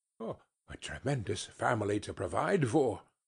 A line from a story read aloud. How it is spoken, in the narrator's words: muttered Scrooge